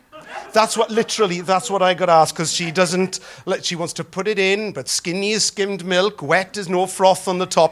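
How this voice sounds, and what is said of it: Welsh accent. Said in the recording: “my Welsh accent”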